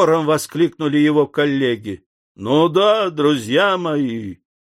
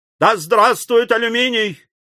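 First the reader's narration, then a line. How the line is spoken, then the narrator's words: Loud enthusiastic shout. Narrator (Russian): крикнул секретарь комитета с обычным своим шумным восторгом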